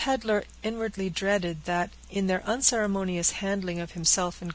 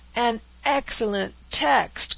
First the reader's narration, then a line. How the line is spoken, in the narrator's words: cried the dragoons